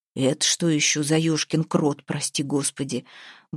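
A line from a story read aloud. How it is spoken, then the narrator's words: Grumbled. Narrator (Russian): буркнул позади Ваята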